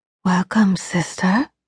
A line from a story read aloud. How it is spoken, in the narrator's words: she murmured in my ear